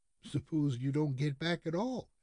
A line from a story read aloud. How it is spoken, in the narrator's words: asked Fred anxiously